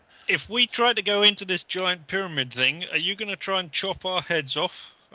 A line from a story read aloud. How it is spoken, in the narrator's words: I shout at him